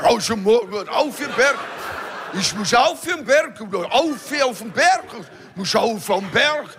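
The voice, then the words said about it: Put-on Tyrolean dialect. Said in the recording (German): “Ich mag den Dialekt, das sieht man. ... über uns Tiroler”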